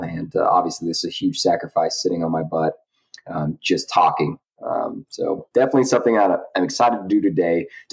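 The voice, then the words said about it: Low, sick-sounding voice. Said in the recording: “my voice sounds a little bit lower than normal, maybe an entire octave lower ... I'm a little under the weather”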